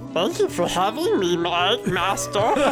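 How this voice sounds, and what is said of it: Gurgly Gollum creature voice. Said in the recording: “my Gollum impression ... That sounded much more gurgly than Gollum ... perfect inflection”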